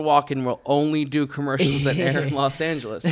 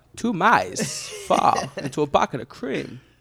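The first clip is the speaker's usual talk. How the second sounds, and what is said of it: Imitates another person's voice. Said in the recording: “Let's not do Christopher Walken impressions. ... my Christopher Walken impression.”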